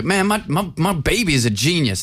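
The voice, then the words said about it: Put-on accent. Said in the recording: “no one with that accent should be coming with the word genius”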